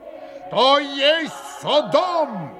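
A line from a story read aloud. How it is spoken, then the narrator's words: Sudden roar. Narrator (Russian): взревел вдруг пан Рублевский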